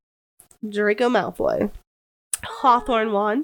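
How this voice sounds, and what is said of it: Usual voice. Nothing is said of it.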